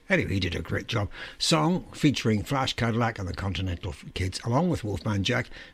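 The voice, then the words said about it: Rough, strained voice. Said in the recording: “Got a cold in my throat tonight. My voice is definitely not working properly.”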